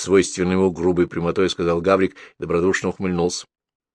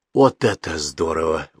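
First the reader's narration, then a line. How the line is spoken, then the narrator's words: Excited exclamation. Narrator (Russian): воскликнул Гаврик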